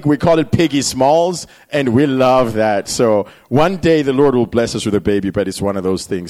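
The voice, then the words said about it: Zimbabwean accent. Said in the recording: “accent ... I'm really not from Texas ... Zimbabwe”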